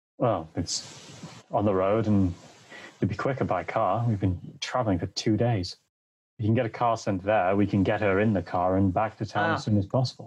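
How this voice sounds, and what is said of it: Put-on British accent. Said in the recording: “You've got a weird British accent.”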